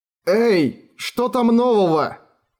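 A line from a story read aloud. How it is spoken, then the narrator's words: Shouting. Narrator (Russian): крикнул Эреган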